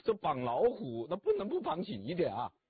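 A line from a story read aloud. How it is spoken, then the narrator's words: Laughing. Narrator (Chinese): 曹操就笑了，说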